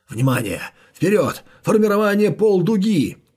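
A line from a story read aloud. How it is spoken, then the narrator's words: Leader yelling. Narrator (Russian): вопил лидер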